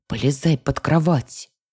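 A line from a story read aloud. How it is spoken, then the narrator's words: Loud whispered command. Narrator (Russian): Громким шепотом приказала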